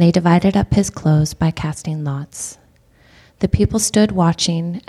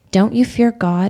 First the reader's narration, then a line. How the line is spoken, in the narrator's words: he said